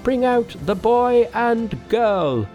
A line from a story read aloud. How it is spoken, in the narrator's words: Someone cried